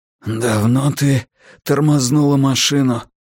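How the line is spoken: Hoarse croak. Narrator (Russian): прохрипел я

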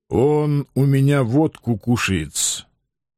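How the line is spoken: Unusually calm remark. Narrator (Russian): Как-то необычайно спокойно заметил кабачик

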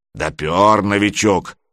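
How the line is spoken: Approving booming spectator. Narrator (Russian): одобрительно прогудел кто-то из зрителей

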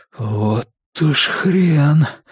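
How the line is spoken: Wheezing. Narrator (Russian): просипел я

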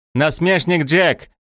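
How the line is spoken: Shout. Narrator (Russian): закричала

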